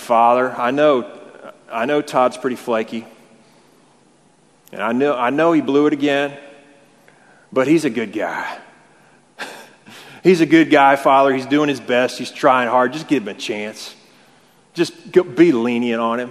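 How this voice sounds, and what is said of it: Put-on southern accent. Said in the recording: “talking in a southern accent”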